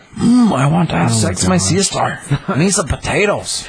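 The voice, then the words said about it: Bad put-on Irish accent. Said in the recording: “That's a terrible Irish. ... It's a bad accent. ... You're like the Lucky Charms guy. ... You do sound like the Lucky Charms guy. ... You sound exactly like him, actually.”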